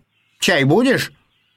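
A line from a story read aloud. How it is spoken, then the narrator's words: Hurt, angry question. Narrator (Russian): Ему вдруг отчего-то стало обидно за ежика с медвежонком, и он сердито спросил у своей собаки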